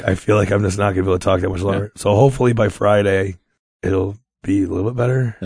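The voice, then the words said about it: Strained, worsening voice. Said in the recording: “My voice is getting worse while we talk.”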